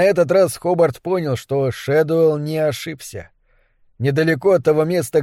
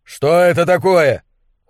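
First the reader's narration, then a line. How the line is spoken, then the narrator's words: Shouting over wind. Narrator (Russian): Хобарт кричал, стараясь заглушить ветер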